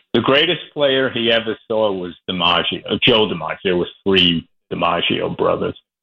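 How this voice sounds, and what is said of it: New York accent. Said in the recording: “my New York accent. I don't have a La Jolla accent. I have a New York accent.”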